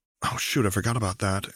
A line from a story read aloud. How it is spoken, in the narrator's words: Anna grumbled